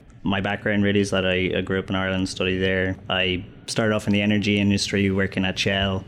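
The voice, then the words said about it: Non-American accent. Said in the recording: “I'm guessing from your accent, you probably weren't born in the United States.”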